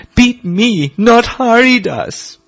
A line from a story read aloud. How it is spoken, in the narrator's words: They pleaded